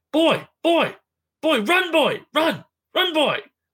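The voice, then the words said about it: Yelling character voice. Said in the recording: “he's yelling”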